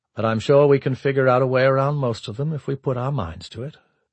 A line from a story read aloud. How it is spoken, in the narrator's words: he said calmly